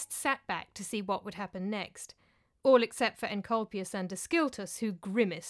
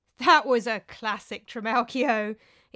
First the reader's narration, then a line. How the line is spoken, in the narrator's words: exclaimed Nikaros, wiping tears of laughter from his eyes